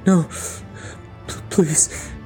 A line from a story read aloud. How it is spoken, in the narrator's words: he whimpered